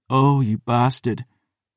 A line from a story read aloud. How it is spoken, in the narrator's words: sighed